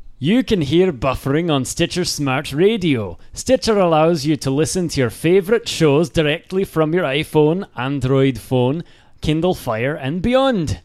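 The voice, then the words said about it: Put-on Scottish accent. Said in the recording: “I'm going to do it in a Scottish accent.”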